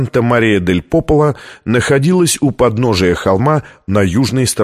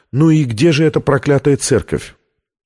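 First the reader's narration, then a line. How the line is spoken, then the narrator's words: Deep sigh, then question. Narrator (Russian): Витория глубоко вздохнула и спросила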